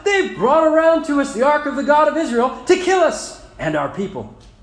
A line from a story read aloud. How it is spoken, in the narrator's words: the people of Ekron cried out